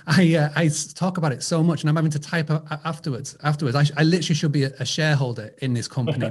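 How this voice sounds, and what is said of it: Speaks with a strong accent. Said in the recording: “they don't understand my accent”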